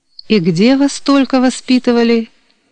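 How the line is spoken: Sighing officer. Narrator (Russian): вздохнул подполковник

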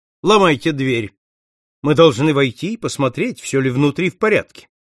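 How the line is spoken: Loud command. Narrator (Russian): Сыщик громко приказал

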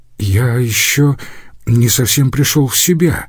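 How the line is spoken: Timid excuse. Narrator (Russian): робко принялся оправдываться Лаурьен

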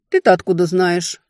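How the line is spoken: Irritated snap. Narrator (Russian): огрызнулась, раздражаясь

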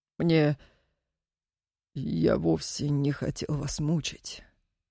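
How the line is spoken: Hoarse. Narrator (Russian): хрипло отозвался он

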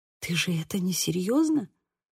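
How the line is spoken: Dawning realization, whisper. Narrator (Russian): прошептала я, когда до меня постепенно дошло

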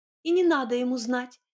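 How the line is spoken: Frightened cry. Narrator (Russian): испуганно вскрикнула Фрося

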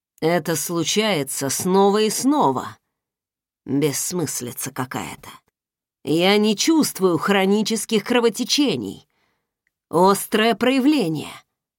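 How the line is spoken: Muttering. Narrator (Russian): пробормотал он

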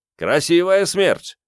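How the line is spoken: Shouted. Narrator (Russian): крикнул Меркиец

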